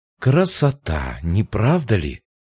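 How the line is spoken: Purring. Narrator (Russian): промурлыкала Сирин

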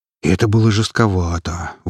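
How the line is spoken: Breathy exhale. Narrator (Russian): выдохнул Макс

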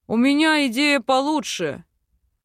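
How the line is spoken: Monstrous voice. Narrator (Russian): Монструозным голосом заявляет Аскольд

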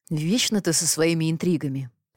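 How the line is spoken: Reproachful sigh. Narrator (Russian): укоризненно вздохнул Идрис

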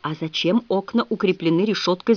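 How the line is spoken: Furious whisper. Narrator (Russian): зашептала я, с яростью

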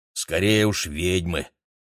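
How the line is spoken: Irritated. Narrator (Russian): раздраженно добавил он

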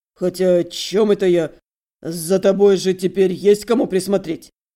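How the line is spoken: Apologetic deep bass voice. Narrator (Russian): словно вспомнив о важном, извиняющимся тоном пробасил

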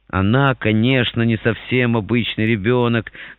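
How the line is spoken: Purring, contented voice. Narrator (Russian): говорит мама мурлыкающим голосом сытой кошки

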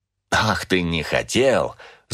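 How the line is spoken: Angry laugh. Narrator (Russian): зло рассмеялся отец

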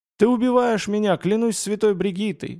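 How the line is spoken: Groaning mercenary. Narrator (Russian): застонал наемник

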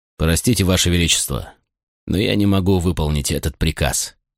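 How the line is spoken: Calm reply. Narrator (Russian): спокойно ответил я

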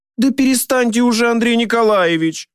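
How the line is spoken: Pleading. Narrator (Russian): взмолилась

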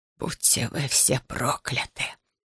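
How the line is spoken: Soundless whisper. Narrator (Russian): беззвучно шептали его губы

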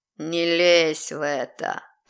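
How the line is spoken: Demonic growl. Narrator (Russian): прорычал демон

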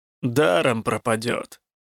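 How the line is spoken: Grumbling. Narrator (Russian): проворчал Коссел

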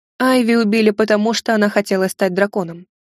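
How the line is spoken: Dry reply. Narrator (Russian): сухо ответила

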